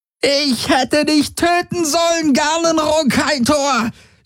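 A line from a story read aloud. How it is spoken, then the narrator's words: Shrieking. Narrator (German): kreischte sie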